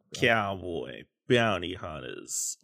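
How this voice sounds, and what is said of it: Cowboy impression voice. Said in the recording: “do a cowboy impression? ... Oh, yeah. Good.”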